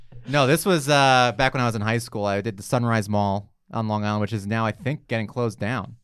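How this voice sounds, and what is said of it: Slight Long Island accent. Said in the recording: “his slight accent ... Long Island”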